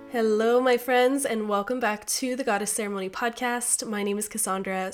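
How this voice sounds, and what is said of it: Sick, off-sounding voice. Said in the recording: “my voice is a little off today. I've been under the weather for the last week ... that's why my voice is off ... your voice sounds very interesting”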